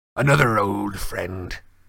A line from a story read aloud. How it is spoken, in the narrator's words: growled Malfoy